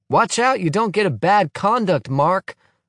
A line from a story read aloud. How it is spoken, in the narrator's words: I shout after him